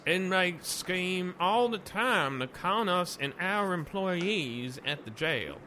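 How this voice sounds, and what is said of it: Exaggerated twangy Southern accent. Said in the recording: “you still got a little too much twang to you... A little too much twang... Northerners do southern accents”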